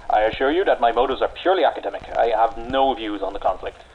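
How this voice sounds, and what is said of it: English accent. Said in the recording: “that accent ... My English accent?”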